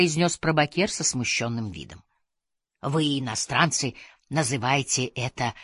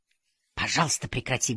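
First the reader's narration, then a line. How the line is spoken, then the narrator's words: Curt remark. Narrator (Russian): бросил я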